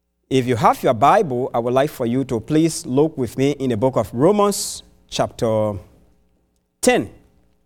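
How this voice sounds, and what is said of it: Non-native English accent. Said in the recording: “my English, the accent is not too like yours”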